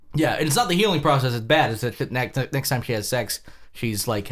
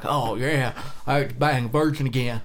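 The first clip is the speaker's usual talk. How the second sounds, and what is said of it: Imitates a TV character's voice. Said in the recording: “your Jason Stackhouse impression”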